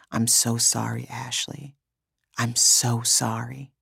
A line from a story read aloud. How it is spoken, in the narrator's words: whispered into my hair